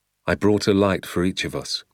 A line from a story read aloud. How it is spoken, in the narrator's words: my father said